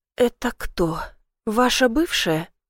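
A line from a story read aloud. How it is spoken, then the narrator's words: Quiet, barely composed question. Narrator (Russian): тихо спрашиваю, с трудом взяв себя в руки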